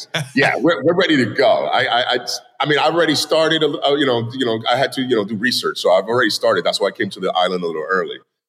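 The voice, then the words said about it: New York accent. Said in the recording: “we hear your New York accent”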